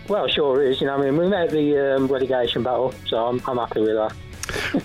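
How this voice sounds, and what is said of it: West Midlands English accent. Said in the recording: “I'm judging from your accent, you're in the West Midlands?”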